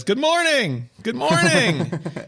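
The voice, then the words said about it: Impression of Tim Cook greeting. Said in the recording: “That's a good impression.”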